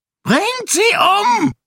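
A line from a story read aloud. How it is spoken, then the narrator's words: Shout. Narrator (German): schrie Shaor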